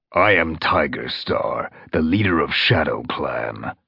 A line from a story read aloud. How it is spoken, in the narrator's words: he growled